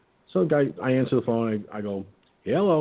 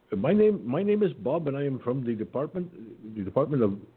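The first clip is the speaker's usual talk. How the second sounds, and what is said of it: Put-on Indian accent. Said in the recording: “he's got an Indian accent. Now, I can do an Indian accent impression. ... I'm going to do that”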